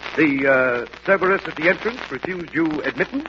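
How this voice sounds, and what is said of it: Put-on cultivated Harvard accent. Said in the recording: “you can put on a funny accent if you like ... your Harvard accent”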